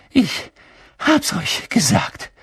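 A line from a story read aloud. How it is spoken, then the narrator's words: Panting. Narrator (German): keuchte Hermine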